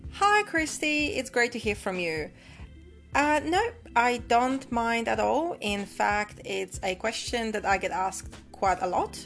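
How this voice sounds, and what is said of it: Polish accent with Australian influence. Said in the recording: “where is your lovely accent from? ... I was originally born in Poland, uh, in, in Europe, and I have migrated to Australia in 95. So my accent, even though it has evolved over the years,”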